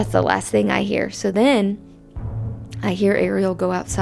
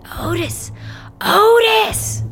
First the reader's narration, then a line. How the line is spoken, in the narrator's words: screaming to his dog